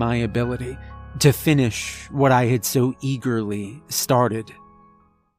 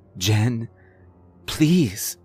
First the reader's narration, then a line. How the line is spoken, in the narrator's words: pleaded, feeling the panic attack reach its peak